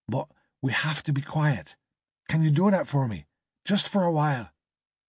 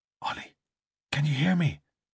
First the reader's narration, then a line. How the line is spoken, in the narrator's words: She whispered